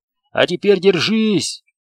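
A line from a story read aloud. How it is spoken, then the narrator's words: Shout. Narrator (Russian): крикнул пилот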